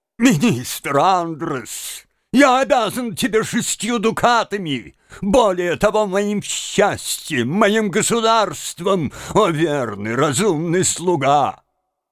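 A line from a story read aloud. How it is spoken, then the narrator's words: Sobbing speech. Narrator (Russian): рыдая, молвил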